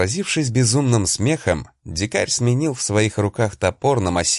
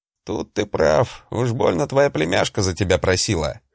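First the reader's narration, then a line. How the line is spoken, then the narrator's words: Amused grunt. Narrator (Russian): хмыкнул здоровяк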